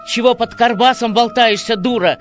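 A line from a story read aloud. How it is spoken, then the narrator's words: Happy yell in ear. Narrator (Russian): Счастливо заорал он ей в самое ухо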